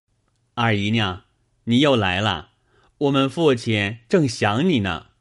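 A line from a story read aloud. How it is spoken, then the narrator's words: Giggling, teasing. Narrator (Chinese): 贾蓉且嘻嘻的笑说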